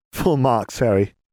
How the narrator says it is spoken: Katie laughed

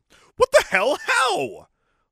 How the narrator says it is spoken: I screamed

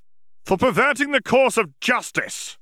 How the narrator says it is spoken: Yaxley snapped

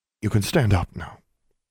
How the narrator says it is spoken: Billy said

